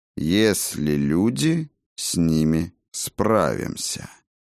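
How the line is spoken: Slow speech. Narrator (Russian): медленно произнес Тан

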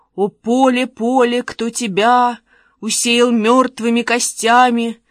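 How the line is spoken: Sepulchral voice. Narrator (Russian): Ваня заговорил за могильным голосом

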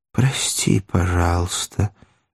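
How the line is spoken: Muffled voice. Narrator (Russian): глухим голосом отозвался вошедший

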